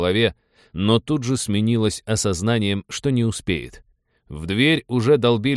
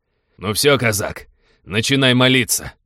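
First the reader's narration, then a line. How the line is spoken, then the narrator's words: Gloating bark. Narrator (Russian): злорадно гаркнул он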